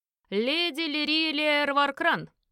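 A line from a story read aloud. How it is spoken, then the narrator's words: Loud formal announcement. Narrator (Russian): громко представил меня советник Гервальд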